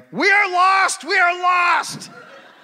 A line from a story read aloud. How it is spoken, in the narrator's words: Brown became very upset and started yelling